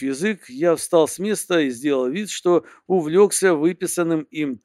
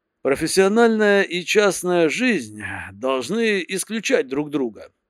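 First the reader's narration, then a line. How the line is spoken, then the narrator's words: Slightly loud mutter. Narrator (Russian): пробормотал чуть громче положенного, чтобы меня было слышно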